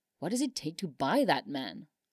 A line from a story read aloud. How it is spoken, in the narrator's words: Josh muttered to himself